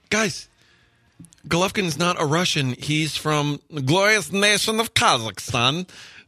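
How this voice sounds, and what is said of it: Put-on foreign accent. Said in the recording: “people talking about your accent there.”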